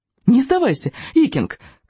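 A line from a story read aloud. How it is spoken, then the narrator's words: Shout. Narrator (Russian): кричал Рыбьянок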